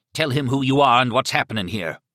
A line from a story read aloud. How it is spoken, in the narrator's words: he barked at Miriam